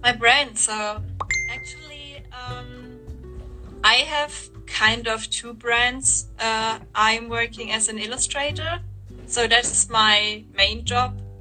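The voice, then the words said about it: German accent speaking English. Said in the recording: “I hope my English is not too bad. I mean, I'm German ... You got the full accent”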